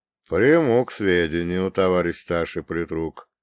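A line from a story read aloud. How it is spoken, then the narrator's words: Calm reply. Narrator (Russian): спокойно отреагировал отец Гермоген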